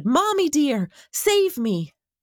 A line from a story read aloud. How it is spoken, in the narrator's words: jumping into the darkness was scary, and he shouted